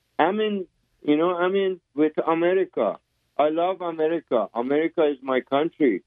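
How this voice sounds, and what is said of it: Foreign accent. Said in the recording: “The reason I have an accent ... I speak four languages. ... So I have accents.”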